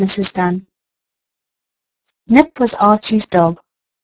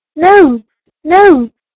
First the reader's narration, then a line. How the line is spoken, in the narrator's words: the children cried